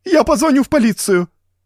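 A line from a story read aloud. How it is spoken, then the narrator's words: Shrill squeal. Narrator (Russian): взвизгнула миссис Джонсон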